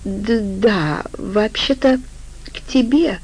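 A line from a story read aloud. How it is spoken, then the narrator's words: Uncertain. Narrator (Russian): неуверенно ответила Вика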